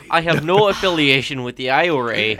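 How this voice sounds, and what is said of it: Puts on an accent. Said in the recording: “what was that accent?”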